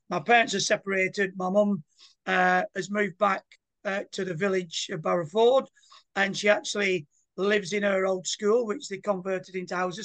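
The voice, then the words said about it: Retained regional English accent. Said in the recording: “We've not lost the accent, that's for sure.”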